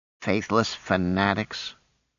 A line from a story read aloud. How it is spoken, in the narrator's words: she muttered